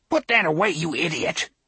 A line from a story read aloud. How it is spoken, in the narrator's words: he snarled